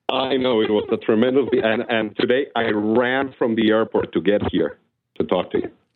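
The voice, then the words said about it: Russian accent. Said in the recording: “he doesn't have the Russian accent you do.”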